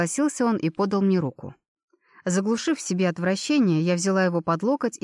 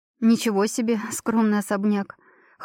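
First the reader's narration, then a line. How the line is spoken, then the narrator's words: Amused snort. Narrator (Russian): хмыкнула я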